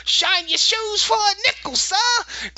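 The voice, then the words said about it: Stereotypical Cockney British accent. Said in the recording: “a British accent? ... some cockney, stereotypical Dickensian, you know ... kind of accent”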